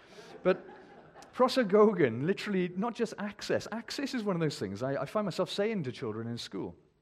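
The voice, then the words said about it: Welsh accent. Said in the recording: “That was a very Welsh accent, wasn't it”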